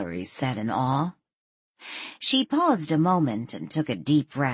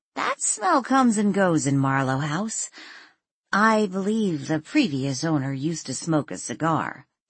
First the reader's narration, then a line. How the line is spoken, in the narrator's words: Danielle said, stifling a giggle